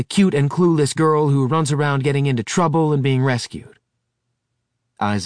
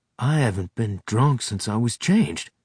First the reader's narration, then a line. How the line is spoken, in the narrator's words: he whispered